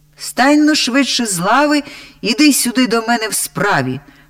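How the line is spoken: Very loud echoing shout. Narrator (Ukrainian): закричав так голосно, що аж луна у печері відбилася

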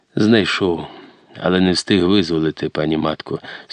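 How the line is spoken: Sad heavy sigh. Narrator (Ukrainian): сумно відповів козак, тяжко зітхаючи

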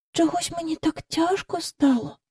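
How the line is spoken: Whispered. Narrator (Ukrainian): прошепотіла вона до Майкла

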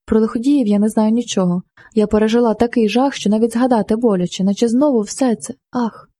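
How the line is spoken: Deep sigh, woman. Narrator (Ukrainian): Вона глибоко зітхнула

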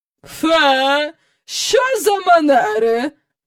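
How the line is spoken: Exclaimed. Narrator (Ukrainian): вигукнула міс Ендрю

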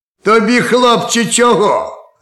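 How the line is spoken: Harsh barking. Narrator (Ukrainian): гаркнув суддя

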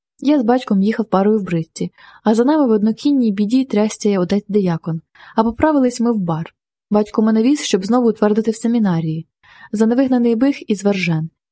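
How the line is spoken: Sighing. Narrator (Ukrainian): зітхнув він

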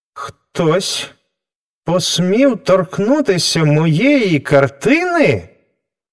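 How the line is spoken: Exclaiming artist. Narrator (Ukrainian): вигукнув художник

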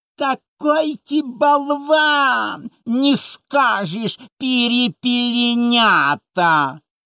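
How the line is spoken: Squeaky mocking voice. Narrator (Ukrainian): тоненьким голосом, передразнюючи вчительку, пропищав

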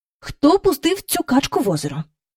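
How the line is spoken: Angry question. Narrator (Ukrainian): спитала таким знайомим їм сердитим голосом

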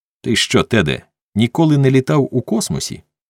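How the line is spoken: Plain. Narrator (Ukrainian): запитав Ріос

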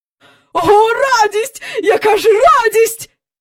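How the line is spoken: Cried out. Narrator (Ukrainian): скрикнув містер Бенкс

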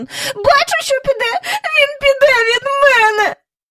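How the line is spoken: Sobbing into handkerchief. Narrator (Ukrainian): Міс Джайворон якусь хвилину схлипувала у хустинку

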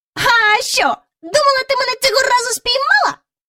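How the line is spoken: Mocking shout. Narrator (Ukrainian): насмішкувато крикнув він

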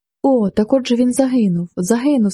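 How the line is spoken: Sobbing cry. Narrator (Ukrainian): скрикнула Розалія і, закривши обличчя хусткою, залилася слізми, ридаючи

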